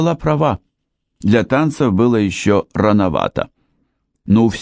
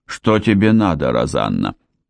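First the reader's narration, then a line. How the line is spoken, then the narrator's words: Icy cold question. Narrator (Russian): спросил он таким ледяным тоном, какого я от него никогда не слышала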